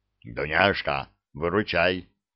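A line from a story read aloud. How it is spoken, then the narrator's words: Whisper. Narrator (Russian): прошептал он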